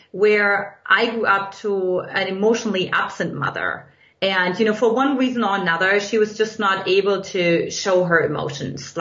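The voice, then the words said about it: German accent. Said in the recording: “in case you can't detect from my accent, in Eastern Germany”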